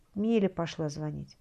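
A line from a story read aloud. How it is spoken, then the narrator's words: Sighing mother. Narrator (Russian): вздохнула мать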